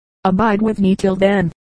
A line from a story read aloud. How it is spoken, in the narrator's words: said Sir Lancelot